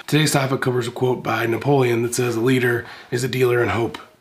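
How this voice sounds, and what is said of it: Slightly messed-up, cold-affected voice. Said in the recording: “My voice is a little messed up today. I apologize. Picked up a cold last week”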